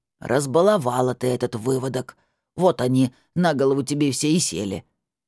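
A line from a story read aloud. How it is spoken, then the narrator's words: Old woman, peremptory. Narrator (Russian): заявила старушка безапелляционным тоном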